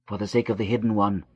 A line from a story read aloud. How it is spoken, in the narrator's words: whispered Moot, hiding her face,